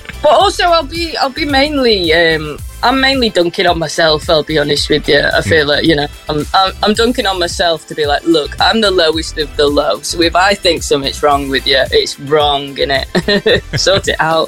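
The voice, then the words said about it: Softened northwest English accent. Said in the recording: “northwest accent, a twang in there? ... there's like a little bit of a twang, but it's very much softened ... Scouse accent”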